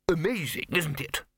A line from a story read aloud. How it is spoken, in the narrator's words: said the lecturer happily